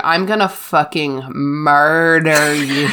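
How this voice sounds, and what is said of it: Voices a menacing cat character. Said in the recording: “That's a good impression.”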